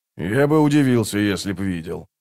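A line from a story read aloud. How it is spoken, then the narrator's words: Grumbled. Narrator (Russian): проворчал Скворец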